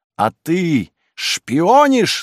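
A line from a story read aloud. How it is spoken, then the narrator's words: Shouting. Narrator (Russian): закричала она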